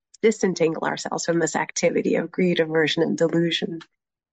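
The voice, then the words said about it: Congested voice from a cold. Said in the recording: “I don't know if you can hear, I have a bit of a cold.”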